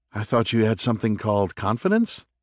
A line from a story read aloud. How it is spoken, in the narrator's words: he asked, unable to hide the laugh